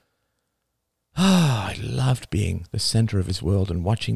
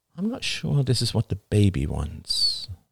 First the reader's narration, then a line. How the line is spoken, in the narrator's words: she murmured